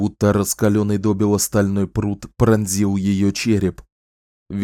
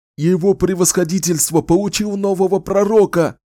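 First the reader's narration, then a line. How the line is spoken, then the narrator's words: Shout. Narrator (Russian): выкрикнул Уоррен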